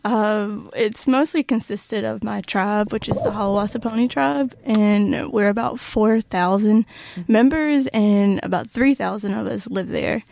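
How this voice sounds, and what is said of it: Southern US accent. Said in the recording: “I'm from North Carolina, hence the accent... I love the accent. I just think the Southern accent is the best ever.”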